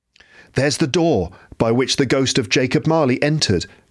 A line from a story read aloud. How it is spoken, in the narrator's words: cried Scrooge